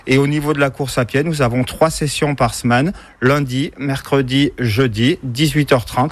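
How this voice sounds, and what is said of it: Cantal regional French accent. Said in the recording (French): “Et vous avez un bel accent qui nous vient. ... Du Cantal.”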